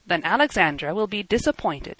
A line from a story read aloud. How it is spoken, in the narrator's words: the young man said roughly